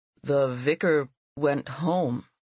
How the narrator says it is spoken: he said hesitantly

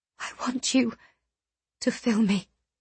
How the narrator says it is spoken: She whispered

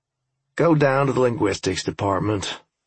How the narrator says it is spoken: I said with a sigh

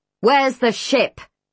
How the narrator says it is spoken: He bellows

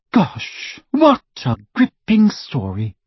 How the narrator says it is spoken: Hermione said in the lofty voice she adopted when wishing to wound

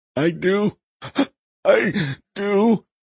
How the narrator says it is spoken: gasped Saul between hyperventilating breaths

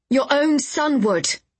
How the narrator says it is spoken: I called, surprised at how clearly my voice rang out

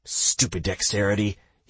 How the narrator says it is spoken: he muttered

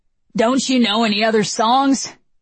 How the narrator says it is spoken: Marcus barks

